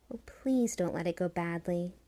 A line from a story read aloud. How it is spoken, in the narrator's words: she whispered into the darkness